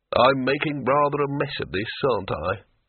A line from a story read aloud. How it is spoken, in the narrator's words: it said wearily